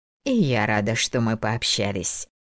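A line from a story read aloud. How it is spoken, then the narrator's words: Plain. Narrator (Russian): ответила Дороти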